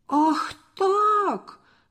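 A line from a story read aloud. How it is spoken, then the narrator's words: Shouting. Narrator (Russian): закричал Борис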